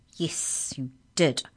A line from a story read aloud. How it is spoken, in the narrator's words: said Bruce bitterly